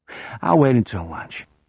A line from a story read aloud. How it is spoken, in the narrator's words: he murmurs, completely unaware that he is talking as well as thinking